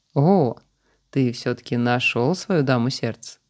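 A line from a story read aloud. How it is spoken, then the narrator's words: Mocking. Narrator (Russian): насмешливо сказал он Алику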